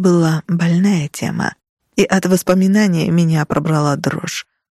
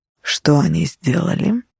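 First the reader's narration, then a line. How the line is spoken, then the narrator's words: Soft, almost tender. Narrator (Russian): спросил мягко, почти ласково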